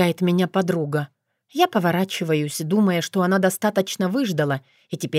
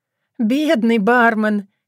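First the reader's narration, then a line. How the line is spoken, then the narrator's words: Laughing. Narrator (Russian): я начинаю смеяться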